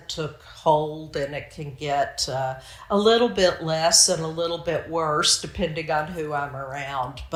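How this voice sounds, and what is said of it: Pronounced Southern American accent. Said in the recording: “You can probably hear that in my voice, that I have a Southern American accent that is very pronounced.”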